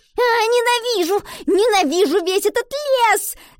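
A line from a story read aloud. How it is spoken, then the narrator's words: Girl's shout. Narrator (Russian): закричала девочка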